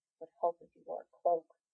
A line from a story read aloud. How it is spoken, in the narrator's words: Jensen mutters dejectedly